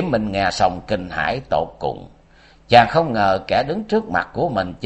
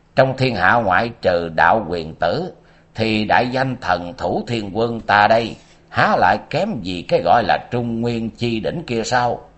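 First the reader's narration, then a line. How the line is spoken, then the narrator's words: Hoarse, eerie laughing yell. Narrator (Vietnamese): Tên quái nhân tóc dài bỗng cất lên một tràng cười quái dị khàn khàn gào lên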